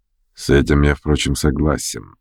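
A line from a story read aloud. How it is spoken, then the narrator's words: Frowning mutter. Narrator (Russian): нахмуренно пробормотал Ставрогин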